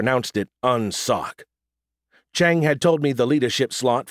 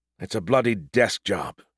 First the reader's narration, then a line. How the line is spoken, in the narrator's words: he muttered